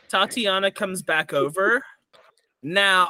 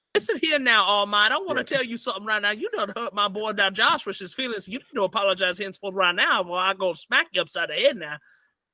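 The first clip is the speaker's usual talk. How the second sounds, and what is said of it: Put-on New Orleans accent. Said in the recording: “how do I do a New Orleans accent?”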